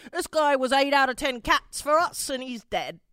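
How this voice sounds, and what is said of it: Put-on accent. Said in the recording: “Pretty good accent, right, guys?”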